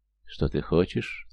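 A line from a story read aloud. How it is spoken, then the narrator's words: Tender, seductive question. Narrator (Russian): ласковым голосом спросила она, включив в себя проститутку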